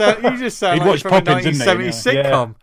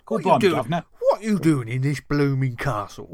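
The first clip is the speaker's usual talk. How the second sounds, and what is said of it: Fake Cockney accent, imitates another person. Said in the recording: “You need to do your best fake Cockney accent ... That was an impression of Uncle Albert”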